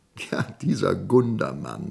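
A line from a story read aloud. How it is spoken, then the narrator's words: Laughing. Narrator (German): lachte Woldemar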